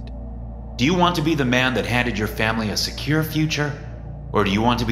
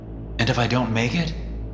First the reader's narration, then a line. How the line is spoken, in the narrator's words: I asked nervously